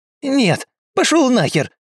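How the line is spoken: Shrieking vagrant. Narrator (Russian): взвизгнул бродяга

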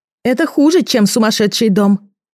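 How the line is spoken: Shouted. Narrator (Russian): крикнула я Сашке

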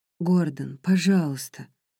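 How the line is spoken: Sighing. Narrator (Russian): вздохнула

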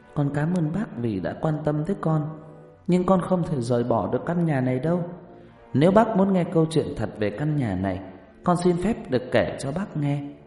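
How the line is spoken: Soft. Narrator (Vietnamese): Còn bà nơ cành khẽ nói

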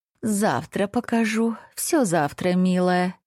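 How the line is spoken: Sleepy mumble, just woken. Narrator (Russian): сонно пробормотала очнувшаяся от дремы драконица

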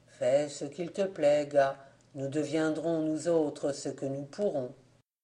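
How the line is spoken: Sad, bitter. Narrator (French): Jean Blaise ajouta tristement, non sans amertume

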